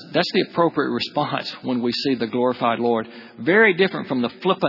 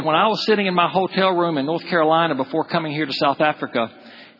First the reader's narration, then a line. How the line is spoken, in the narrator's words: he said